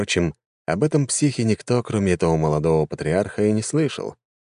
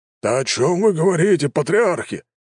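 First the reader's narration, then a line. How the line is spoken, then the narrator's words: Exclamation. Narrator (Russian): воскликнул Горсиан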